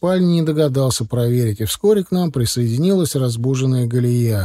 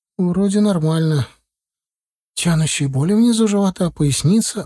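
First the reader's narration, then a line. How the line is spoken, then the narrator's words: Anxious whisper. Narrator (Russian): взволнованно зашептала Инна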